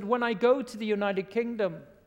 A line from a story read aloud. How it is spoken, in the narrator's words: said